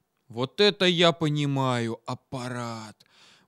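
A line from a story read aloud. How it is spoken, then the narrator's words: Admiring exhale. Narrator (Russian): Восхищенно выдохнул Витька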